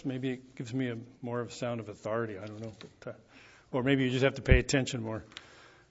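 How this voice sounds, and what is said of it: Slightly hoarse voice. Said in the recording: “I've had a cough all week ... my voice is a little bit hoarse.”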